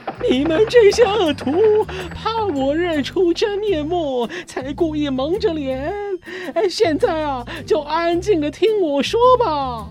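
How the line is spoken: Breathless shouting. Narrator (Chinese): 边喘气边叫

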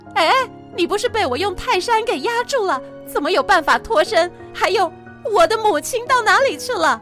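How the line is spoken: Shouting in shock. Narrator (Chinese): 银角大王看见原本的妈妈变成了孙悟空，忍不住大声的喊

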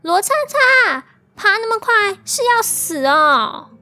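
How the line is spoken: Girl shouting at full voice. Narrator (Chinese): 同行的女生 B 就扯开嗓子，对着远处的他大喊

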